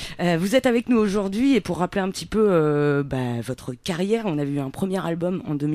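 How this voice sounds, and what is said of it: Usual voice. Nothing is said of it.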